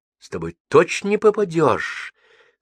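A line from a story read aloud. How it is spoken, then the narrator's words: Sincere admiring exclamation. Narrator (Russian): с искренним восхищением воскликнула Вера Собакина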